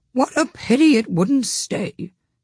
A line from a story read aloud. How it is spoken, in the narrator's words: sighed the lory